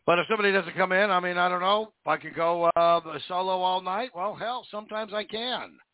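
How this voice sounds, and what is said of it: Hoarse, strained voice. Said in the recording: “I'm losing my voice, as always.”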